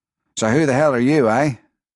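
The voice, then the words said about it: Australian accent. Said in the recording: “an Australian accent to his voice”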